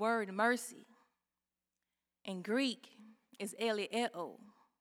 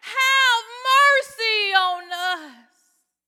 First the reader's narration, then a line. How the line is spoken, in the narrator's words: they cried with all their might